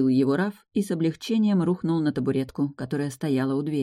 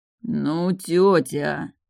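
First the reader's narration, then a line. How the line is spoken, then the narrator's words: Drawling. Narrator (Russian): протянул Раф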